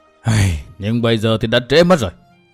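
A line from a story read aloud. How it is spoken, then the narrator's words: Old man sighing. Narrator (Vietnamese): Nam Hải Kỳ lão thở dài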